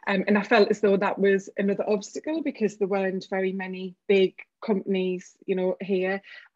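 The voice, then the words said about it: Northeast English accent. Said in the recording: “I live in the northeast of England as you can probably tell from the accent”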